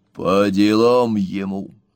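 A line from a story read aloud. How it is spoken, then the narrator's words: Hollow, sinister voice. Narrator (Russian): добавил глухим, зловещим голосом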